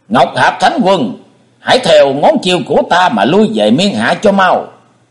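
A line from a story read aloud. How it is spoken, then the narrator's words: Demonic shriek. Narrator (Vietnamese): Hải Ma giáo chủ thét lên như loài quỷ độc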